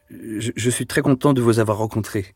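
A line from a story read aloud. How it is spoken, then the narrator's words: Hesitant stammering. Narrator (French): finit par balbutier Deloche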